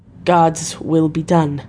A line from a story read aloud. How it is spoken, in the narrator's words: Harker said solemnly